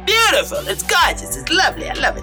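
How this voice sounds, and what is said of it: Put-on New York accent. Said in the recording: “Doesn't really work to put a New York accent to a Houston situation.”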